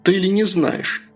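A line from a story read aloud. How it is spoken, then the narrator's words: Irritated. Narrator (Russian): раздраженно ответил я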